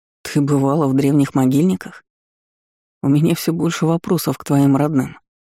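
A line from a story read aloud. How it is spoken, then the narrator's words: Gloomy. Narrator (Russian): мрачно сообщил мне Ирден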